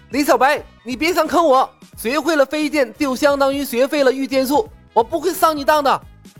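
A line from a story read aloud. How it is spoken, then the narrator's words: Loud shout. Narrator (Chinese): 陈鱼高声喊道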